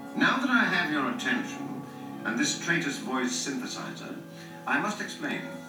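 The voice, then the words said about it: Exaggerated posh RP English accent. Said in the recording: “Terribly RP accent.”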